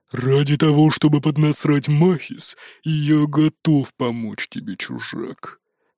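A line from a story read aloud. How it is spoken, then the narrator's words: Gruff grumbling orc. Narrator (Russian): проворчал орк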